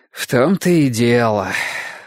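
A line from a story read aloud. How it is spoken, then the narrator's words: Sighing. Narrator (Russian): вздохнул Ясон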